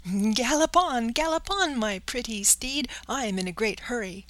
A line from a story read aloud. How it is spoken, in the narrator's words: he cried out gaily